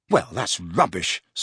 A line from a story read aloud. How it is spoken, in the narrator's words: snapped Harry